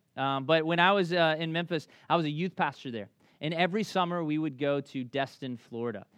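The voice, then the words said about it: Thick Southern US accent. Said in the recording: “this thick southern accent”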